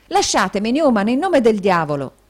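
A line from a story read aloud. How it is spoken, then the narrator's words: Exclaiming. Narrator (Italian): esclamò Nicola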